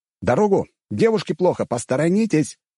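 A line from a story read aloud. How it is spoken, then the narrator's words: Shouting while running. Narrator (Russian): кричал я, несясь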